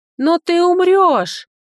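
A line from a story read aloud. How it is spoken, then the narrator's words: Screaming, straining throat. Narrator (Russian): заорала, надсаживая горло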